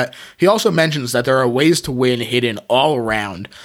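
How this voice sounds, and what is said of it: Usual voice. Nothing is said of it.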